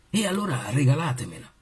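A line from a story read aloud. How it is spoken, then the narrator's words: Plain, prince. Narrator (Italian): disse il principe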